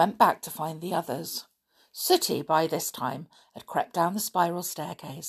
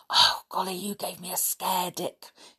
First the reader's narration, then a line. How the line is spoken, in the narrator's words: he whispered